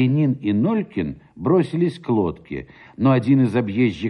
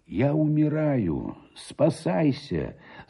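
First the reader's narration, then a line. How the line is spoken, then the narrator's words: Weak voice. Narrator (Russian): сказал он ему слабым голосом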